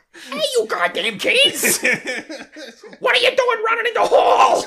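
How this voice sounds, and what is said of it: Imitates another person's voice. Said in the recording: “I would absolutely have him voiced by Gilbert Godfrey. ... You almost have to squint to do his voice right.”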